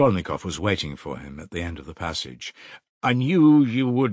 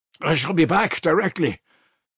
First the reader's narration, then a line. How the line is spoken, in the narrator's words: he shouted to the horror-stricken mother